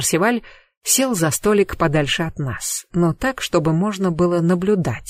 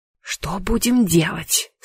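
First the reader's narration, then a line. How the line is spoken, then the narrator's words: Dreadful whispered question. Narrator (Russian): страшным шепотом спросила я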